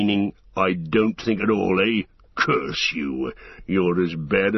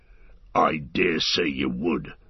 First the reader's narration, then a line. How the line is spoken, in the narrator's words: snarled Ugluk